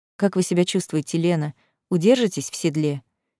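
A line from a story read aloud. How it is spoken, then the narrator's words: Quiet question. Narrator (Russian): тихо спросил Ричард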